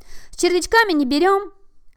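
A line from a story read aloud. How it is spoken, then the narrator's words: Shouting hare. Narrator (Russian): крикнул заяц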